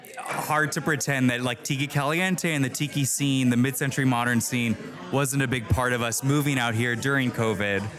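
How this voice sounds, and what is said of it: Good radio voice. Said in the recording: “You have a really good radio voice”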